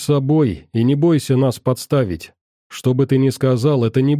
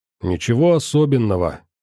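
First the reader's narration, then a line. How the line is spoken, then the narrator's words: Calm old man. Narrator (Russian): теперь уже спокойно продолжил дед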